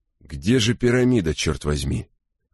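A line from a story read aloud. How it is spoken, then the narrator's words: Irritated question. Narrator (Russian): раздраженно осведомился он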